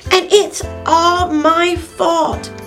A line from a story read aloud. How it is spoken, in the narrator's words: cried Smallfoot